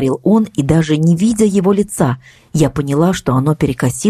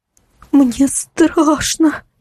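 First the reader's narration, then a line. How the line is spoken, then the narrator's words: Trembling voice. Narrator (Russian): ответила она дрожащим голосом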